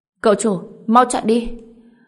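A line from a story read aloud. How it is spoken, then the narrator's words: Urgent loud shout. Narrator (Vietnamese): Liễu Tam Thiên gấp rút hét lớn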